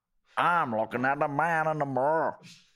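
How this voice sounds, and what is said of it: Put-on Northern Irish accent. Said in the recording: “I wish Michael Jackson had a Northern Irish accent.”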